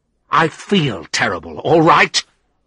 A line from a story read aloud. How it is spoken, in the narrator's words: I replied angrily